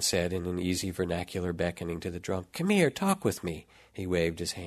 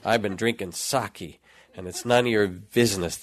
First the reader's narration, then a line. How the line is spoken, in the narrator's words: the laborer bellowed